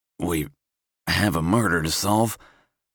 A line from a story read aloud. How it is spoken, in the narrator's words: I croak out